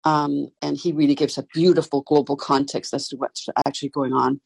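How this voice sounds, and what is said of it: Danish accent. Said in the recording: “you hear an accent. I'm Danish”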